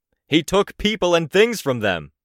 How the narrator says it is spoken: Cradle roared out the response, so he could be heard

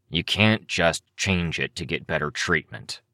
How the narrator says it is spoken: Cryptid growled

